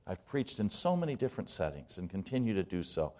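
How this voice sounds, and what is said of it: Distinctive non-native English accent. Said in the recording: “my accent was unique”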